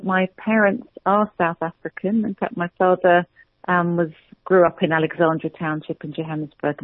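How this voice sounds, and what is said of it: British English accent. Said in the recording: “sounds British in English ... the accent is a British accent.”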